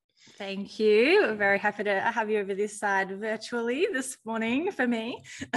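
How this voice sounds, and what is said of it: Australian accent. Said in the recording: “I love your, your accent. I love Australia.”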